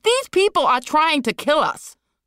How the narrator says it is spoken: Liz screamed

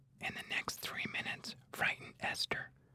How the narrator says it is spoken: Catherine whispered to Miles

